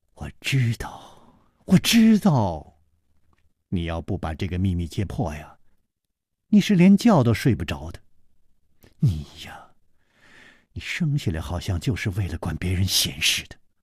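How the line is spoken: Sighing. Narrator (Chinese): 李红秀叹道

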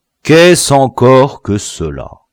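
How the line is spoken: Plain. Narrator (French): demanda le chef

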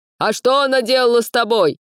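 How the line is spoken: Shout from the crowd. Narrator (Russian): выкрикнули в толпе

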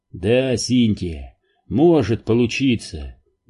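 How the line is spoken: Sighed. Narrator (Russian): вздохнул Сол

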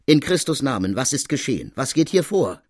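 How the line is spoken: Calling out. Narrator (German): ruft sie

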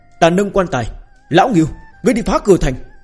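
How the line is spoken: Repeated roaring. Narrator (Vietnamese): Ngưu Tam Đa liên tục gào thét

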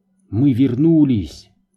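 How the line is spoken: Exclamation. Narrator (Russian): воскликнул Густаво

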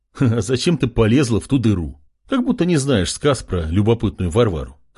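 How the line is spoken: Chuckling. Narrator (Russian): хохотнул Артем

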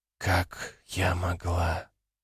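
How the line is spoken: Whisper. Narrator (Russian): прошептала она

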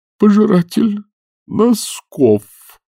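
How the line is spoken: Groaning. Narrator (Russian): простонал старший Ренглер

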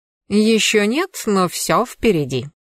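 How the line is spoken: Confident purr. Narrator (Russian): уверенно промурлыкал мой рыжий ловелас

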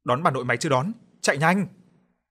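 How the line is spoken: Anguished scream. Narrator (Vietnamese): Tôi hét lên trong đau khổ

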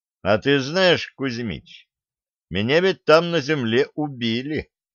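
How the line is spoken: Gloomy grumble. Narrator (Russian): мрачно буркнул Денис

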